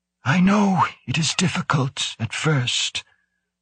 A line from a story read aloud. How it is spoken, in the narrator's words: the older man said calmly, almost gently